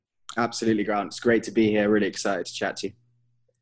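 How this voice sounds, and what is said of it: English London accent. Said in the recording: “your accent ... it's the one accent that everyone seems to love ... I'm originally from London ... London, England”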